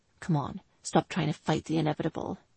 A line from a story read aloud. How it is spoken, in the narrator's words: he whispered into her ear